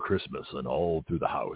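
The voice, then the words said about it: Big deep Santa Claus voice. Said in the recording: “I'm doing my big Santa Claus deep voice.”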